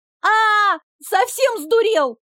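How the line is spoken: Scream. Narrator (Russian): закричала я

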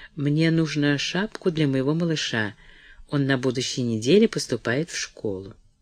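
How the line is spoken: Confidential tone. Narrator (Russian): она сказала конфиденциальным тоном

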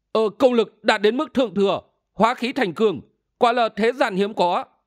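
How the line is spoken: Astonished cry. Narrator (Vietnamese): Sĩ Nguyên không ném được kinh hãi kêu lên

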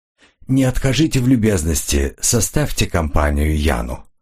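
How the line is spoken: Calm voice. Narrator (Russian): произнес Ренли спокойным голосом

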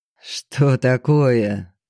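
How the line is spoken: Mocking. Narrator (Russian): насмешливо отозвался Лейб

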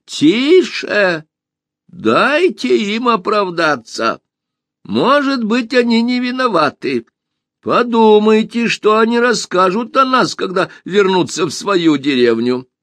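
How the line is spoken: Exclaimed. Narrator (Russian): воскликнул

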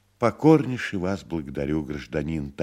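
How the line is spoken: Sad little man. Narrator (Russian): также грустно сказал человечек

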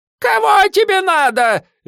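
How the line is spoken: Shrieking woman. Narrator (Russian): визжала она

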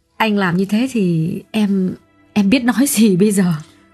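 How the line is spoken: Trembling voice. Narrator (Vietnamese): Xuyến run run nói

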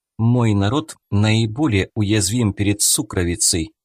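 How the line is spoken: Calm. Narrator (Russian): спокойно продолжила Аванти

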